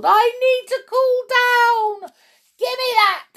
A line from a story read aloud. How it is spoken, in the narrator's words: she screeched